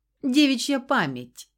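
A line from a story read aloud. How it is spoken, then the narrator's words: Amused snort. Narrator (Russian): хмыкнул баклажан, явно потешаясь над нашей перепалкой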